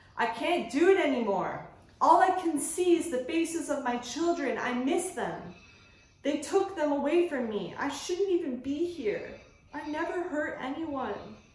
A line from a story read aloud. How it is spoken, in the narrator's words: cried